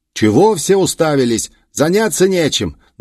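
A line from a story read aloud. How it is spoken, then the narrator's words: Angry shouting. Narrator (Russian): раскричался господин Гури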